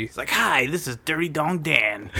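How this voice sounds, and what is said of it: Sleazy radio DJ voice. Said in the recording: “radio voice ... That sounded like a porn DJ. Stripper DJ.”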